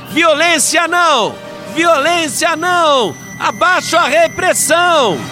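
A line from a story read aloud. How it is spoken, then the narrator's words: Crowd chanting loudly. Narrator (Portuguese): a outra multidão gritava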